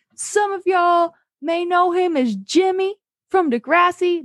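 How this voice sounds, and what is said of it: Poor imitation of a rapper's voice. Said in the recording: “worst Lil Wayne impression of all time.”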